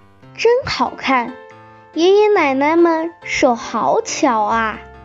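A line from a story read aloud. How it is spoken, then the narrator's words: Admiring. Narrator (Chinese): 维特 赞叹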